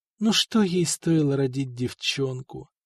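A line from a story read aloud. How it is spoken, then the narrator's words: Whisper through bitten lips. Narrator (Russian): шептала искусанными губами Нантильда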